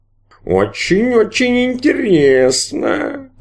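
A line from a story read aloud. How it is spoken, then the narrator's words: Purred. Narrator (Russian): промурлыкал барон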